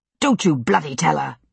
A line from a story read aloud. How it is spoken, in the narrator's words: William snapped